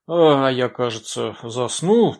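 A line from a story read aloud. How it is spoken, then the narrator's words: Surprised mutter. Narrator (Russian): пробормотал с удивлением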